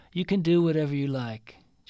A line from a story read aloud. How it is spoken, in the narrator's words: Jasper said wearily